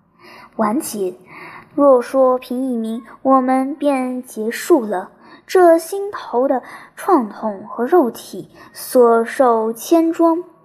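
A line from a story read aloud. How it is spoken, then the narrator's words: Hoarse muttering. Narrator (Chinese): 他扯着嘶哑的声音继续念叨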